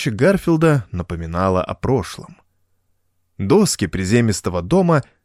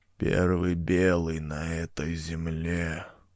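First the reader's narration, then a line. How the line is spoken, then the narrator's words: Indistinct mumbling. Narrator (Russian): невнятно бормотал Джим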